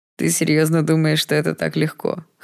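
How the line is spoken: Hoarse laughing. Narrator (Russian): хрипло рассмеялся Даррел

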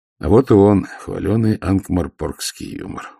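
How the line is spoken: Grumbled. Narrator (Russian): буркнул Ваймс

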